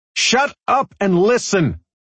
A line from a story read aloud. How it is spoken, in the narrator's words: Stevens shouted